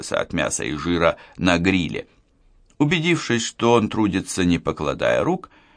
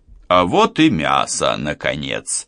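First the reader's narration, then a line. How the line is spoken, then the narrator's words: Solemn announcement. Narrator (Russian): торжественно объявлял я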